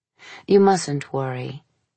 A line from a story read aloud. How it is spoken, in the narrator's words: she said to her soothingly